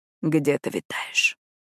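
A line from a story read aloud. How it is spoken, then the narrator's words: Intimate close whisper. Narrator (Russian): прошептал, прижимаясь к моей шее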